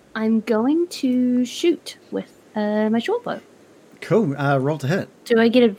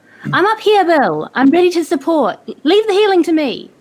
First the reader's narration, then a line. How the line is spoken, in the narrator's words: I'm gonna yell out to Bill